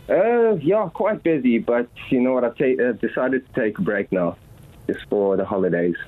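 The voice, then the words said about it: South African accent. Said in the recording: “we're detecting an accent ... South Africa, Johannesburg”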